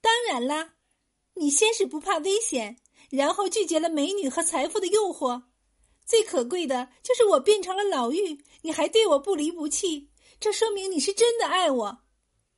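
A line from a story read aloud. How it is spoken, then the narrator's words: Smiling. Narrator (Chinese): 香秀笑着说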